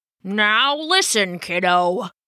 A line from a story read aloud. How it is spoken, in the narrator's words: Old Cap would growl